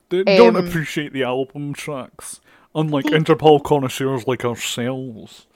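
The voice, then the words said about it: Imitates another person's voice. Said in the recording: “I didn't realise Sean Connery was present to mock me ... that's my impression of you being a wanker. I don't know why I transformed a little bit into Sean Connery.”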